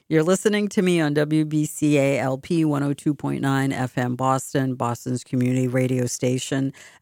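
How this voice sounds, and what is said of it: Boston accent. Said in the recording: “this is my Boston accent ... sometimes I speak, you don't hear a hint of a trace of an accent. Other times it's like you couldn't cut it even if you had like a Gensu knife ... here is my Boston accent.”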